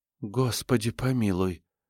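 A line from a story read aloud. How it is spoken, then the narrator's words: Mutter. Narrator (Russian): пробормотала Ингам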